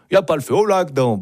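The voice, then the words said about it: Put-on Swiss Vaudois accent. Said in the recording (French): “avec l'accent vaudois, c'est quand même un peu mieux”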